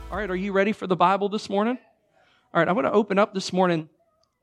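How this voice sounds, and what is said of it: Raspy voice. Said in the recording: “Sorry about my voice ... I'm on the tail end of a cold ... This is my raspy voice”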